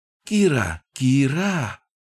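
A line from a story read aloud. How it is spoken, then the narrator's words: Joyful chirping. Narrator (Russian): Радостно прочирикал гоблин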